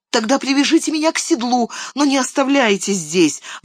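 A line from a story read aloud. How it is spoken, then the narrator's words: Pleading. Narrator (Russian): взмолился Мерри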